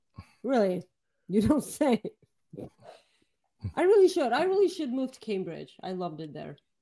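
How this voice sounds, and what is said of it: Bulgarian accent. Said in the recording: “I have a Bulgarian accent. ... You do have a Bulgarian.”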